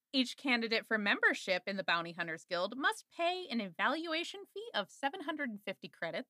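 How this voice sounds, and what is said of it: Condescending customer-service voiceover voice. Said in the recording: “You are 100% doing your voiceover customer service voice right now. ... it's super condescending”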